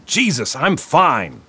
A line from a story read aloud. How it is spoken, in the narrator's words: Marlin shouted